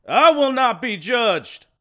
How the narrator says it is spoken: the shouting lunatic

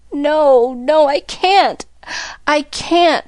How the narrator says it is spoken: moaned

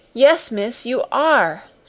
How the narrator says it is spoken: she cried, and her words were all broken

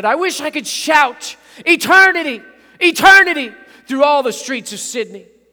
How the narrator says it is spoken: he shouted

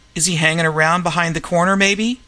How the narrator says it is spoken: she cried

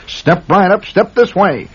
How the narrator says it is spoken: cried the barker

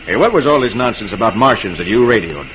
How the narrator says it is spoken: He demands gruffly

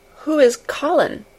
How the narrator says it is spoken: she faltered

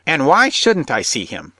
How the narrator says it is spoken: she whined

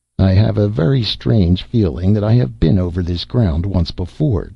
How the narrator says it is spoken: sighed

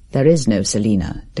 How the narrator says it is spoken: declared Herbert grimly

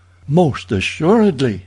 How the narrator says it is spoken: exclaimed Miss Strong

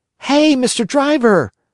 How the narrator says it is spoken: cried the Marionette

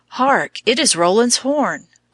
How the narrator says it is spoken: cried Charlemagne again

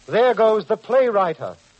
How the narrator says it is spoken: wild crowd shouted derisively

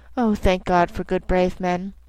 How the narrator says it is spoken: She sighed, and positively a shadow of a smile stole over her poor pale face, as she put her arms round me and said softly

